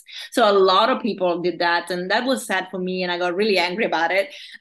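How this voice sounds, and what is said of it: Passionate, heated tone. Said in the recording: “As you probably can hear from my tone, I'm very passionate about the subject”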